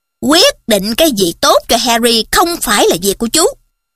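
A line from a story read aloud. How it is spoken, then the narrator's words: Sharp, harsh voice. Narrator (Vietnamese): nói giọng gay gắt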